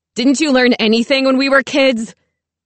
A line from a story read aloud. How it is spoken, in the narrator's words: Daddy screams